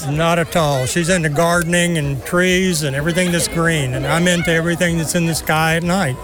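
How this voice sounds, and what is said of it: Texan American accent. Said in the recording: “the accent. Where are you from, sir? ... Texas.”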